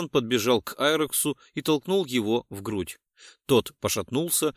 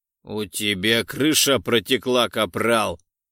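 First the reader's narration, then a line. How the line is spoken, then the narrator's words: Barking shout. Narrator (Russian): рявкнул Айрекс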